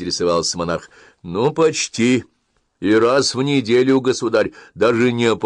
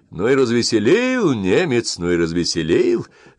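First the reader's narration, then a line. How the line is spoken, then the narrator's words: Forced laugh. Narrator (Russian): рассмеялся, а глаза не смеялись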